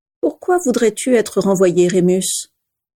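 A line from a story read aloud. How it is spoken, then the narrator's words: Calm question. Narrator (French): demanda calmement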